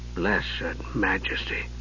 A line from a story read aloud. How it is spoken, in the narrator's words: Ariakin whispered, stunned and appalled